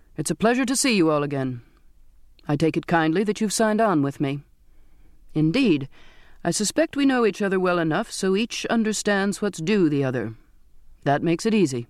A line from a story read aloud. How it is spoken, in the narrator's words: he said in a clear, firm voice